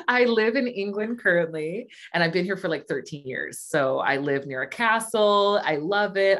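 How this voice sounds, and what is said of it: Californian American accent. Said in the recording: “you can hear i got california accent”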